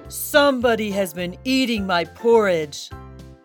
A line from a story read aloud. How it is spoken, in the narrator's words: In his great big voice, he growled